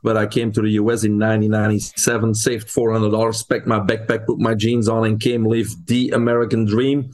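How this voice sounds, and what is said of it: Belgian-accented English. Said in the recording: “Some of your listeners will pick up an accent. I'm originally from Belgium.”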